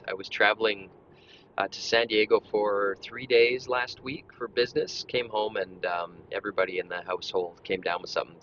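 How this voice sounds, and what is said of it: Slightly gruff, rough voice. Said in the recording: “I sound like my throat's a little gruff”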